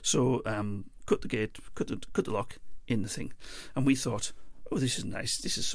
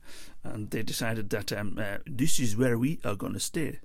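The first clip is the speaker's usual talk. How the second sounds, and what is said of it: Silly put-on French accent. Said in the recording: “In French, of course, that was just me, you know, doing a silly accent.”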